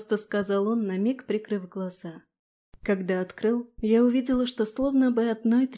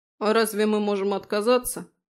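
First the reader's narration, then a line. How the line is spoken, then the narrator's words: Grumbled mutter. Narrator (Russian): буркнул Фрей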